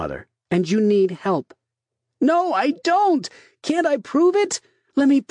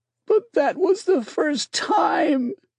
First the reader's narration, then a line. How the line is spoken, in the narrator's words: I said with a whimper